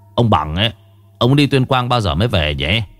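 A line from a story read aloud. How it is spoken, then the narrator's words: Grumbling father. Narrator (Vietnamese): Bố tôi còn cằn nhằn với mẹ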